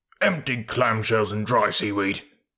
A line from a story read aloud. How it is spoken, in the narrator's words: snorted Seacatch